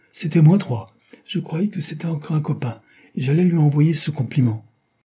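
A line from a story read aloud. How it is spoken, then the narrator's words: Exclaimed. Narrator (French): s'écria Mécano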